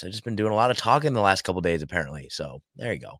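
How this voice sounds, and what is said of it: Raspy, hoarse voice. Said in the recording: “I'm kind of losing my voice here a little bit ... I got a raspy voice”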